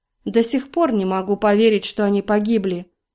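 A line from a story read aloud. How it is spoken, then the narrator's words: Hollow, muffled voice. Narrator (Russian): глухо произнесла она наконец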